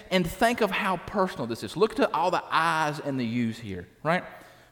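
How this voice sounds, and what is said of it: Country accent. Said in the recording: “Try to ignore my country accent”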